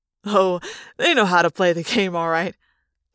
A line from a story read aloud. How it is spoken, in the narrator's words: Jake said with a laugh